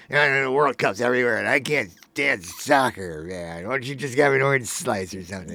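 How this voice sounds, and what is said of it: Mocking voice of a soccer hater. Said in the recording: “What an impression ... my impression of somebody who's like still doesn't enjoy soccer”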